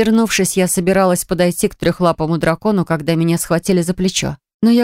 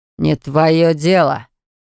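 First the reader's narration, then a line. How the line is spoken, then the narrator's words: Reluctant, through gritted teeth. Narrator (Russian): повторил мужчина и словно нехотя процедил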